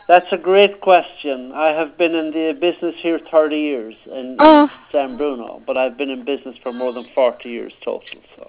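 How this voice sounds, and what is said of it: Irish accent. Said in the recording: “Where's your accent? ... I'm from Ireland.”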